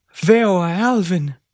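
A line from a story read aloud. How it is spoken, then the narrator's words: Father's exclamation after pause. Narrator (Spanish): Tras una pausa, Joseph padre exclamó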